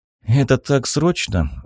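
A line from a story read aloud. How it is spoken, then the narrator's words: Sigh. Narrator (Russian): вздохнул Хиро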